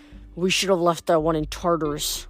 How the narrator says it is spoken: Luke mumbled

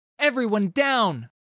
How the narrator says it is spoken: shouted Miss Fortune

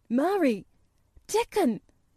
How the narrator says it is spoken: he cried

